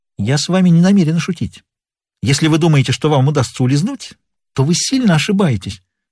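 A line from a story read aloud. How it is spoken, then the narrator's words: Exclamation. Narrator (Russian): Элеонора побледнела и воскликнула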